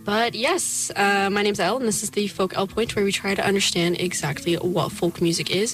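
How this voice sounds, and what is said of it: Losing voice, strained. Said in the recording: “I'm losing my voice. I'm recovering from being sick”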